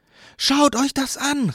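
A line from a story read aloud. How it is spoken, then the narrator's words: Called out. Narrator (German): rief sie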